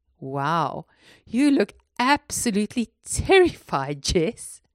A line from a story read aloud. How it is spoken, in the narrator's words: Candy laughed